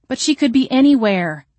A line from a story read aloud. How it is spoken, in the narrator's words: I cried